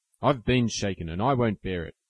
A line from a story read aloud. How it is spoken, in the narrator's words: growled Laurie indignantly